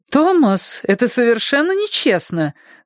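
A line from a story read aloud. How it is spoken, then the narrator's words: Mock-cheerful protest. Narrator (Russian): нарочито радостно запротестовала Джет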